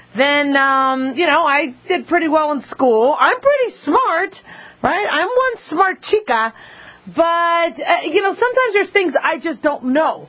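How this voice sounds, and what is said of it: Slight accent. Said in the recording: “Sometimes a little accent gets in the way.”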